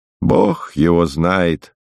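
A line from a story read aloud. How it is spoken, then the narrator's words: Sighed. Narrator (Russian): вздохнула и соседка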